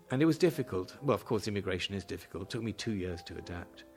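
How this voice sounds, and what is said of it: Lasting foreign accent. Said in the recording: “I was 28. That's why the accent stays.”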